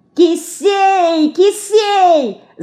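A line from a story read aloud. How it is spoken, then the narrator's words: Shouted. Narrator (Russian): закричала Марьяшка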